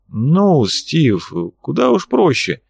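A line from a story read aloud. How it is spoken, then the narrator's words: Sighing, slow, emphatic. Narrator (Russian): Валюженич вздохнул и начал говорить медленно, выделяя каждое слово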